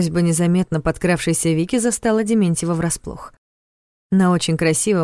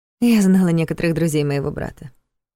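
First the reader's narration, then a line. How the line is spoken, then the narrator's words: Calm answer. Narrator (Russian): спокойно ответила Вика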